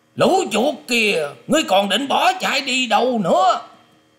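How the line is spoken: Shouted. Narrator (Vietnamese): Tiếng quát

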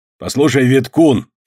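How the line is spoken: Even angrier reply. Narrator (Russian): еще более сердито отозвался шкипер

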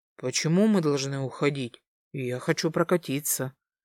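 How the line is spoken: Suddenly serious declaration. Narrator (Russian): серьезным тоном заявил Тим, с лица которого улыбка сползла за одно мгновение

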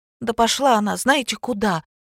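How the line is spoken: Heated exclamation. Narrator (Russian): с жаром воскликнула Женька

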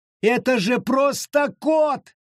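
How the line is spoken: Shouting again. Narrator (Russian): вновь закричала Абита

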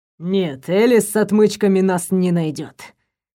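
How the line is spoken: Hoarse vow. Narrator (Russian): хрипло поклялся Дэвид

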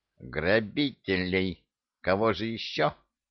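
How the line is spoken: Angry grumble. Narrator (Russian): сердито буркнул министр финансов

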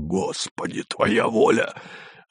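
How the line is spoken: Quiet despairing curse. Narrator (Russian): Кто-то тихо с отчаянием выругался

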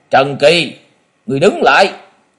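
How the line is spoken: Glaring shout. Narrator (Vietnamese): Quái khách Nhiếp Phi Phùng mang trợn mắt quát

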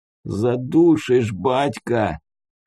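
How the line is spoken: Strained wheeze. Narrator (Russian): прохрипел зажатый Муха

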